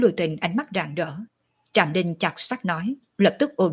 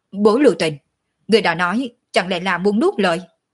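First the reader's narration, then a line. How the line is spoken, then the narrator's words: Furious. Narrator (Vietnamese): Ninh Thiền Nhai hầu như hộc máu, giận dữ nói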